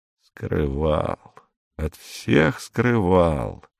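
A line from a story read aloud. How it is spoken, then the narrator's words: Muttering. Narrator (Russian): пробормотал инспектор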